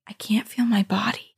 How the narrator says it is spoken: I heard her whisper

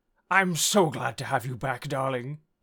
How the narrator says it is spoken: exclaimed

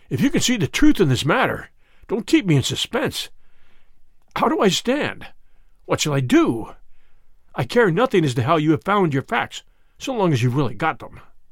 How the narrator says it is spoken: said hoarsely

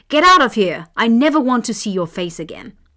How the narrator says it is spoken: The king took it badly, shouting

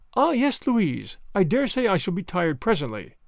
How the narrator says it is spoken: said Marguerite, kindly

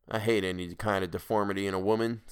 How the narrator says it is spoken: said King

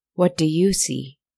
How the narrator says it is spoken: it asked

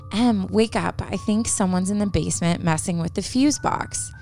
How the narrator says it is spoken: she whispered to her

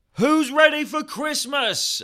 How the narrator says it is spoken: yelled at the top of my lungs

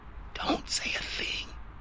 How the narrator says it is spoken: Sienna hissed

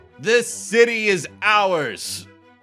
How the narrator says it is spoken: He yells out back to the parapets

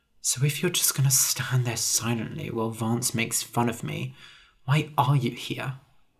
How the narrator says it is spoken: said quietly

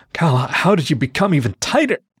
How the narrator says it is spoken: He moan

